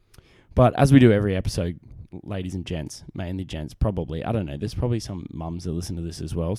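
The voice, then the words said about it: Australian accent. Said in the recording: “my great Australian accent, because I'm a man from down under”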